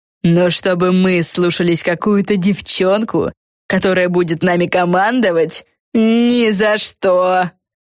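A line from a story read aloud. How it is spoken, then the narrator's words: Spiteful laughter. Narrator (Russian): Силия Крейфиш злобно расхохоталась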